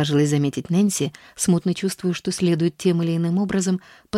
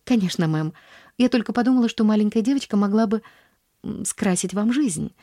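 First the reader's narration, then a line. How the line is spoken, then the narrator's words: Stammering woman. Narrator (Russian): запинаясь, произнесла она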